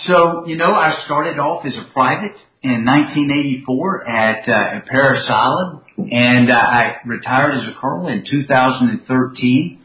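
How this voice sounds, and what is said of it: Southern US Georgia accent. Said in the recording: “born and raised in Commerce, Georgia. I know my accent never gives me away”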